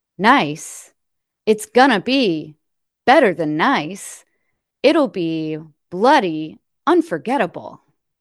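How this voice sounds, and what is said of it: William Shatner impression, a bit Christopher Walken. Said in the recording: “Shatner isn't my best impression ... Your Shatner gets a little Christopher Walken.”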